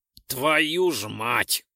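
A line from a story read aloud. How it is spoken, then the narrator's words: Angry curse. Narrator (Russian): Зло выругался Ролден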